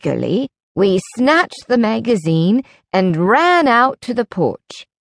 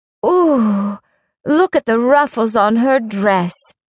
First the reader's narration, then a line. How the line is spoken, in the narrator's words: Sarah Jane exclaimed